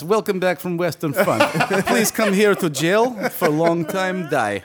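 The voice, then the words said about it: Put-on Russian accent. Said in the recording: “That voice you do is racist... Russians don't count.”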